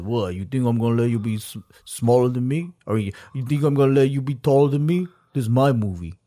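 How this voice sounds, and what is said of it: Imitates another person's voice. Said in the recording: “he does this like impersonation.”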